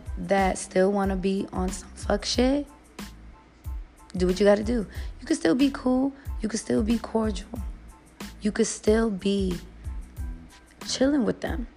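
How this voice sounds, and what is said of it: Hoarse, fading low voice. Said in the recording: “I don't know why I'm losing my voice. Am I just talking too low?”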